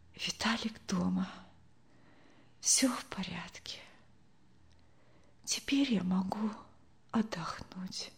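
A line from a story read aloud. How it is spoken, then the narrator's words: Whispered. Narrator (Russian): прошептала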